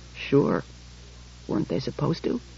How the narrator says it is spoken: He said in a low voice

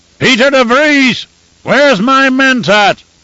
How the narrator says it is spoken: He shouted

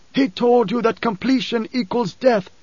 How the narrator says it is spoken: shouted

